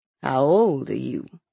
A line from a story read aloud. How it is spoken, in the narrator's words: he asked softly